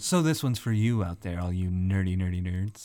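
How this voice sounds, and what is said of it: Announcer-style radio voice. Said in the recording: “Ooh, I love your radio voice. It's so great.”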